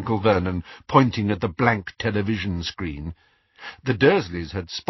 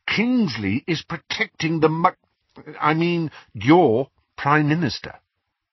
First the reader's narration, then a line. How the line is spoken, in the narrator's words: he said through gritted teeth